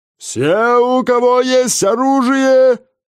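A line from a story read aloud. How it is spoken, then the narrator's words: Booming shouting village elder. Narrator (Russian): зычно кричал староста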